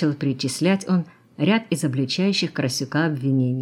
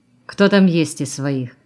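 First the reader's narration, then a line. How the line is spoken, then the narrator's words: Muttered with head down. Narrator (Russian): не поднимая головы, пробурчал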